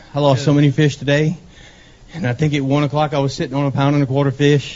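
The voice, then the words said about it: Breathless, out-of-breath speech. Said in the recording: “You're out of breath. ... Dude, you're out of breath.”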